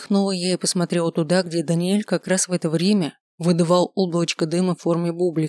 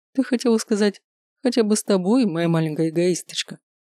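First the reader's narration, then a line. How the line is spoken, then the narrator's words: Chuckling. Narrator (Russian): хохотнул Маркус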